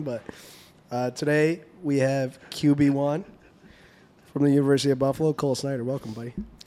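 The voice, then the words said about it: Sick, hoarse voice from a cold. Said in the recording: “apologize for my voice a little bit sick, just getting over a cold”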